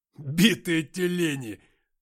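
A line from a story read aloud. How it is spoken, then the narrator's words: Loud guffaw. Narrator (Russian): Антоха громко заржал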